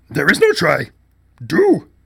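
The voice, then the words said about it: Bad Yoda impression. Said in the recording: “in a bad impression of Yoda”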